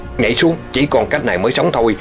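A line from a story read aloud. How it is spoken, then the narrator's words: Loud shout. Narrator (Vietnamese): Hoàng Thiếu Long quát lớn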